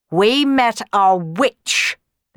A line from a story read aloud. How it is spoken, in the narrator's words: the Baron snarled